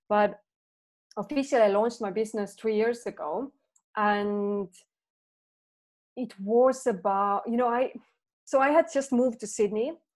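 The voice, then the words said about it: Non-native English accent. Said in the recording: “As you can hear, I'm not a native speaker... I have an accent. My English is not perfect.”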